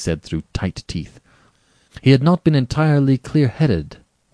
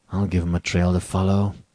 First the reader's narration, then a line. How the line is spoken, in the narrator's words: muttered Rainsford